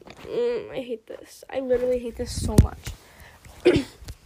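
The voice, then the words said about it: Strained, sore-throated voice. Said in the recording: “My voice hurt. My throat hurt... My throat is hurting and my voice is hurting... I'm so sick”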